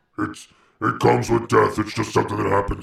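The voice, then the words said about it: Imitates another person's voice. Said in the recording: “That sounded just like me ... do a perfect impression of me ... I just basically do a Trump impression, and then I had a little graggle in there”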